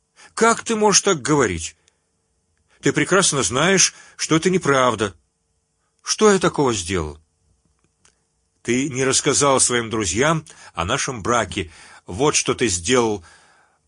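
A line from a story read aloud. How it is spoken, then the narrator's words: Sobbing exclamation. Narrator (Russian): воскликнула она, судорожно всхлипывая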